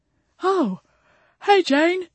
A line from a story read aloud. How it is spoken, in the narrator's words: he said, yawning again